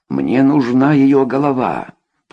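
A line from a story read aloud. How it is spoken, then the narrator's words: Growled. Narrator (Russian): прорычал комиссар полиции своему заместителю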